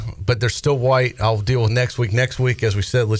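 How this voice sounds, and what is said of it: Usual voice. Nothing is said of it.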